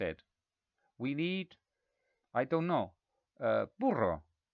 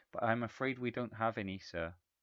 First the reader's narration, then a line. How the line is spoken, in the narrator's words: she said, as sadly as she could